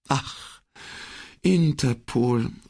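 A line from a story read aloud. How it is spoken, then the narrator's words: Resigned sigh. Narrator (German): seufzte Borghese im resignierten Ton dessen, der sich allzu oft mit internationaler Bürokratie herumschlagen muss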